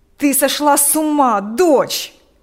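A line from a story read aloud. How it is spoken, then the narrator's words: Father shouting. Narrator (Russian): кричал отец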